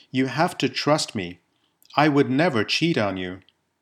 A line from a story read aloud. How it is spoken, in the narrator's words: says calmly